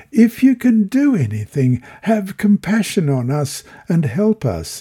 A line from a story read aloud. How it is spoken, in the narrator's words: It proves too much for the father, who blurts out